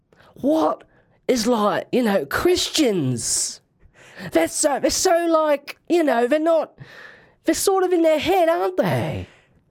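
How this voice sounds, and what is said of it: Imitates an anti-religious comedian. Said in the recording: “hear my impression of an anti-religious comedian ... an impression of a very specific anti-religious comedian”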